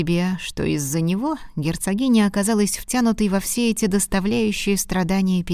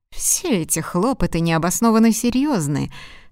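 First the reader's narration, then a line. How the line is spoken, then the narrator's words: Contemptuous tone. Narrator (Russian): сказал презрительным тоном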